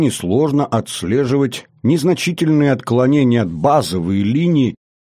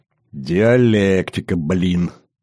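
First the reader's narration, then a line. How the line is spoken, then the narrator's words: Involuntary snort. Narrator (Russian): не удержавшись, хмыкнул Роднин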